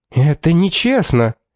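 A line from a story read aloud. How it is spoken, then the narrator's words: Irritated exclamation. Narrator (Russian): воскликнула художница раздраженным тоном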